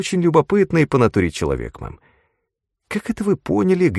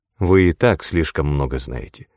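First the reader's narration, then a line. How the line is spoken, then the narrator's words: Dry. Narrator (Russian): сухо ответила герцогиня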